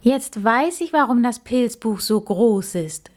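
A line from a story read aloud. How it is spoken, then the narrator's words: Calling out. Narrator (German): rief er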